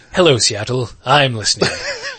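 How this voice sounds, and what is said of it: Pompous radio host impression. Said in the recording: “That's a good Fraser Crane impression ... I have a natural air of pomposity to me.”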